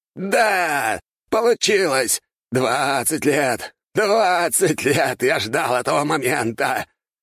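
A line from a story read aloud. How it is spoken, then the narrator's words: Laughing madly. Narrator (Russian): Он хохотал, стоя на коленях посреди ада, который сам создал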